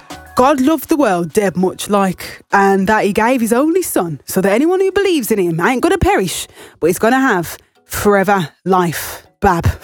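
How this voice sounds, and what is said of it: Put-on Birmingham accent. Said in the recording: “this is my best Birmingham accent”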